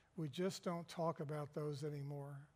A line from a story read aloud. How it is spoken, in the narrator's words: knowing that people were listening, he whispered